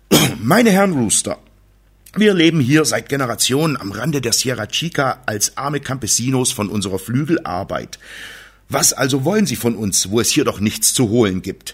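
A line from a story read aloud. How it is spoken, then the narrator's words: Firm voice hiding fright. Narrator (German): Padre Leon, der sich jedoch den Schreck nicht anmerken ließ und mit fester Stimme sprach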